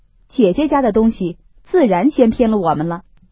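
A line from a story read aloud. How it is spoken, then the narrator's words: Laughing. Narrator (Chinese): 宝玉笑道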